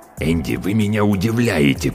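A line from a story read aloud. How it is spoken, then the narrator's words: Hiss. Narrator (Russian): прошипел он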